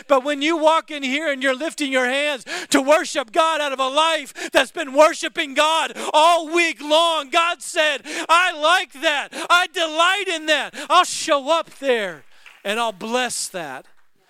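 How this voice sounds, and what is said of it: Excited, yelling preaching voice. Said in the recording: “I know I get excited. Why are you yelling? Because I get excited.”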